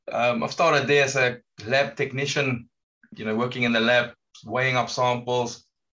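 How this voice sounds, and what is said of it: South African accent. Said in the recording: “from South Africa, you can hear from my accent”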